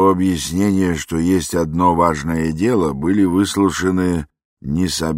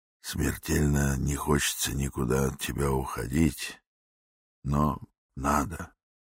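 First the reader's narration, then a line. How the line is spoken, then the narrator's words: Whispered. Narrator (Russian): Иван Дмитриевич шепнул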